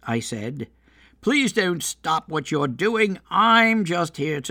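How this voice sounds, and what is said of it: Usual voice. Nothing is said of it.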